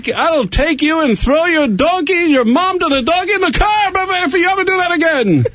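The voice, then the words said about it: Put-on Middle Eastern accent. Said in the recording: “that was a nice Middle Eastern accent”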